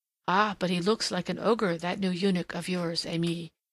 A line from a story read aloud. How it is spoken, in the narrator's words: murmured one of the little Turks